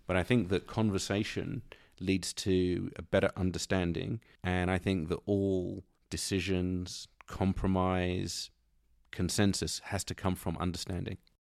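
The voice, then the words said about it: British accent. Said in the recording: “Being a British person living in the United States, your accent kills it”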